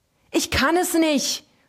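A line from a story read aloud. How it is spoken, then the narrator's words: Screamed. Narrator (German): schrie er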